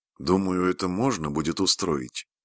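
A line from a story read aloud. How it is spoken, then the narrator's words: Soft voice. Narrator (Russian): мягко сказала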